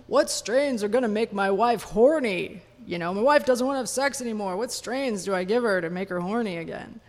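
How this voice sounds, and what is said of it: Puts on a character voice. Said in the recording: “do a voice”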